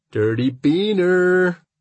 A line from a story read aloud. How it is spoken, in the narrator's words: Carlos drawls at me in a fake deep accent